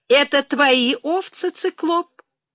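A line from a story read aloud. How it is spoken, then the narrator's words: Cheerful question. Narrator (Russian): весело спросила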